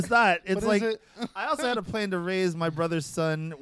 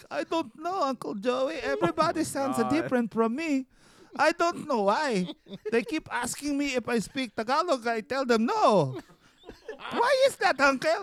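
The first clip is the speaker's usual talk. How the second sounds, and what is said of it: Put-on Filipino accent, child's voice. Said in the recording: “with a Filipino accent”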